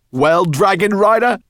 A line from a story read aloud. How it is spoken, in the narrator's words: he shouted above the hubbub of the voices